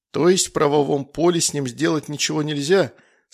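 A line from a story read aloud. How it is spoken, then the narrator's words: Plain. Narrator (Russian): спросил Иисус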